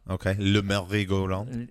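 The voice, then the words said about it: Poor put-on French accent. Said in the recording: “Your accent's not good. Stop.”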